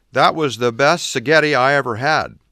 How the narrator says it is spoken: I added, laughing

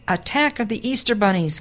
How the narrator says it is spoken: gasped the farmer

